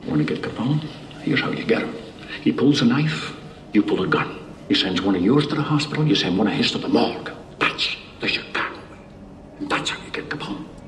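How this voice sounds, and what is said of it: Bad Irish accent, Sean Connery. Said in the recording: “the second worst Irish accent ever on screen ... Sean Connery”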